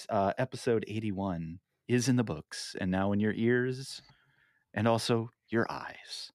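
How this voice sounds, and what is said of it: Calm public-radio announcer voice. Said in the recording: “Pull out my NPR voice.”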